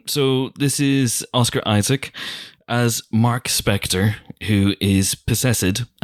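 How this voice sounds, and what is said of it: Put-on accent. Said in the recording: “that is why I'm doing this accent... we've been doing the accent”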